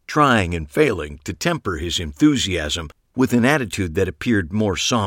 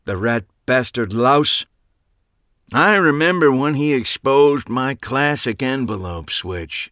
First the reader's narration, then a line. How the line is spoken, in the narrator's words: Abe grumbled